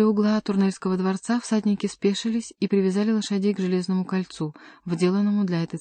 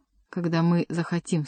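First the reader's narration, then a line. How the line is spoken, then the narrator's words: Plain. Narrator (Russian): сказал принц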